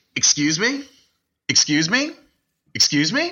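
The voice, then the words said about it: Impression of someone's repeated excuse me. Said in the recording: “give me your impression of how Max says excuse me”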